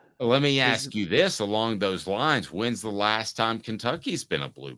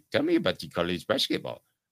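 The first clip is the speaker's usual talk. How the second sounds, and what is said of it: Silly put-on alien accent. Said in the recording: “That was some sort of Martian accent I tried to do.”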